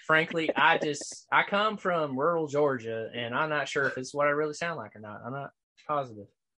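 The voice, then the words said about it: Rural Southern Georgia accent. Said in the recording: “my accent is somewhere, my honest, true, real accent is somewhere between Danny McBride ... and Walt Goggins ... So he has that Southern inflection”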